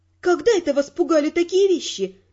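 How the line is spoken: Laughing. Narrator (Russian): рассмеялась я

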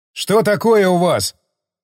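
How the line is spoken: Shouted. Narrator (Russian): крикнул Стечкин

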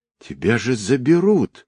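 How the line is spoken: Indignant. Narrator (Russian): возмущенно

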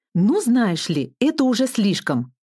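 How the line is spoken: Angry exclamation. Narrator (Russian): воскликнула я, разозлившись

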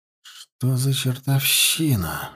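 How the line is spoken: Breathless exclamation. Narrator (Russian): выдохнул Теонард

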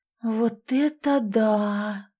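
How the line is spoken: Admiring breathless. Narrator (Russian): восхищенно выдохнула Элизабет

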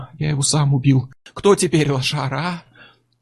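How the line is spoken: Giggling. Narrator (Russian): Чак захихикал

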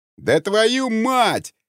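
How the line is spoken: Yell. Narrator (Russian): Заорал первый

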